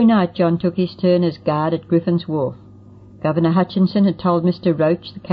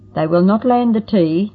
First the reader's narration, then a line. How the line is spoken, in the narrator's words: John exclaimed